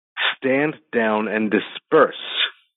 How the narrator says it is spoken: Dane said firmly to the rest

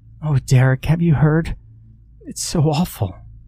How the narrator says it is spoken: sobbed

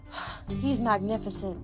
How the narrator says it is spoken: Melly sighed

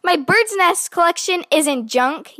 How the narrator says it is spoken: yelled Brother at the top of his lungs

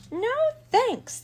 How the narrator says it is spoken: the mouse cried

